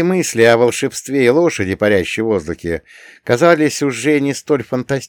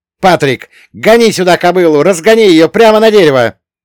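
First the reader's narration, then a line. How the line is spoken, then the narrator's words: Yelling. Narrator (Russian): заорал я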